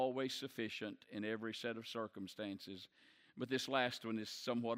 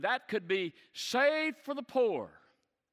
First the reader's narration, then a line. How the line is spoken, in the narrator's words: Judas cried out immediately